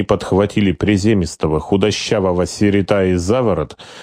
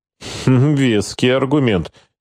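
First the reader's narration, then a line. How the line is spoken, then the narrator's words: Skeptical snort. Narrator (Russian): скептически хмыкнул Гольвик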